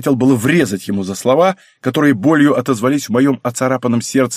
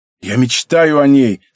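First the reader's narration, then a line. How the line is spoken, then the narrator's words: Hoarse. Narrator (Russian): сказал я хрипло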